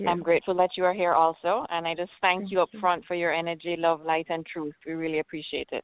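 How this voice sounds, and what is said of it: Jamaican accent. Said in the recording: “are you from Jamaica, sweet lady? ... I know that accent.”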